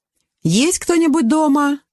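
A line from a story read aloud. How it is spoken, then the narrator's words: Cheerful question. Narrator (Russian): весело спросила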